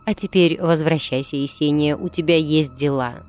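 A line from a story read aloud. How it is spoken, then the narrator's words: Plain. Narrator (Russian): сказала смерть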